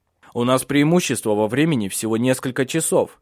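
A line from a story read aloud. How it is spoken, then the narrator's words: Shouted. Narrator (Russian): крикнул он ей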